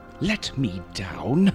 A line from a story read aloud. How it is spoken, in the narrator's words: snorted